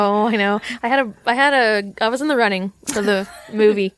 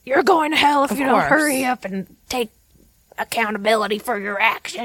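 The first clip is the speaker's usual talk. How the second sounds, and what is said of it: Accusatory holler, imitates another person's voice. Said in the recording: “asking them in an accusatory holler ... you could barely understand him ... You do a really great Rulon Jess impression.”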